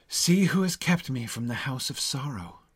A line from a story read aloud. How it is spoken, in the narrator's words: He said with sighs